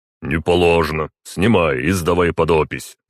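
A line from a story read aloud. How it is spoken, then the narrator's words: Growled. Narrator (Russian): рыкнул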